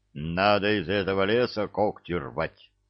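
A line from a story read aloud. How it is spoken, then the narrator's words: Grim agreement. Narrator (Russian): мрачно согласился Миша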